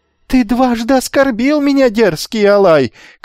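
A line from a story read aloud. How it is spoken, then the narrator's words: Shouting after someone. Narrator (Russian): кричал ему вслед опомнившийся Ликомед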